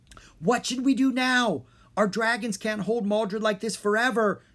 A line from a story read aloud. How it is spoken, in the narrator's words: Drake yelled to his friends over the loud, spinning winds